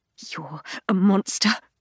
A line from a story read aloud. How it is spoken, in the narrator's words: I mutter, though I don't quite mean it